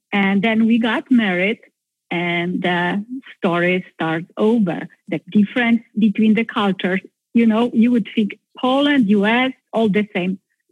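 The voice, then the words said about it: Polish-accented English. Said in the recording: “the limits that I brought back from Poland ... Maybe my accent is not that bad.”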